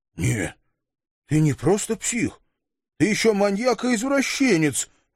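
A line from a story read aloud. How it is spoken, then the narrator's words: Stunned, forced out. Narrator (Russian): обалдело выдавил он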